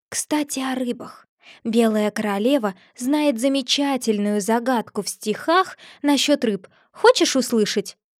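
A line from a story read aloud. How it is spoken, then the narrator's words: Whispered. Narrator (Russian): прошептала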